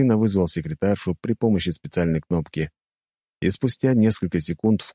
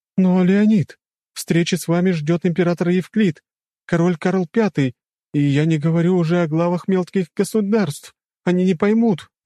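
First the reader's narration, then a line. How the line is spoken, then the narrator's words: Exclaiming. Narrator (Russian): воскликнула она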